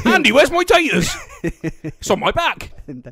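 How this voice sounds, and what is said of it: Samwise Gamgee-style character accent. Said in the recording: “Samwise Gamgee accents”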